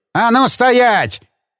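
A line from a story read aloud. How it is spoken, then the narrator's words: Barked shout. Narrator (Russian): рявкнул он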